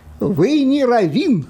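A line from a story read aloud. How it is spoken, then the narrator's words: Plain. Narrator (Russian): сказала она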